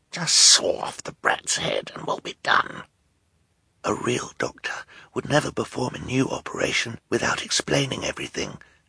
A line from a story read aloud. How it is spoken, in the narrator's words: Klaus whispered back